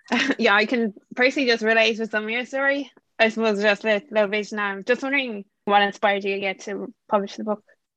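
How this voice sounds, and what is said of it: Irish accent. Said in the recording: “I'm from Ireland, so I hope you can understand me ... I love your accent. I have a good friend in Ireland.”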